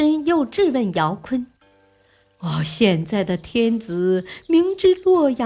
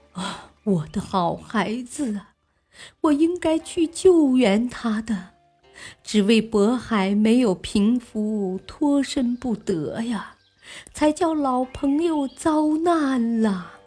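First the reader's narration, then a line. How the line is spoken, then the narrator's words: Weeping bitterly. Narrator (Chinese): 阿保机听说庄宗是乱兵杀死的，痛哭道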